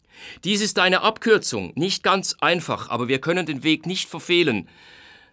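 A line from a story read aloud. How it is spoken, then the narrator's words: Called out. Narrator (German): rief Schlegel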